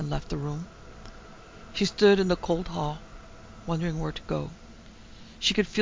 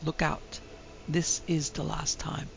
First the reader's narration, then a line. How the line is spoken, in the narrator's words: as though someone had whispered to her